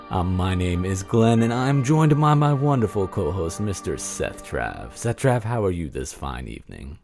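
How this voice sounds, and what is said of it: Dignified, fancy, spooky Dracula-like voice. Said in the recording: “You've got a dignified Dracula tone ... it was very fancy, very fancy ... I gotta bring my spooky voice ... let me just start this creepy laugh”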